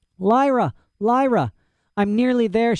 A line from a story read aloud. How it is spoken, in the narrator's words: gasped